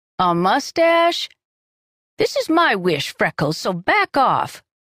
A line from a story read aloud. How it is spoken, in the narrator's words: Mavis snapped